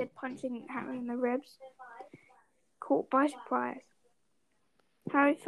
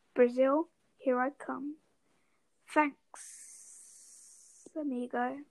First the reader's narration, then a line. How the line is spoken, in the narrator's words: a hissing voice said